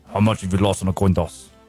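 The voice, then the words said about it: Imitates a film villain's accent. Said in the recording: “Unique accent ... That's Anton Chigurh”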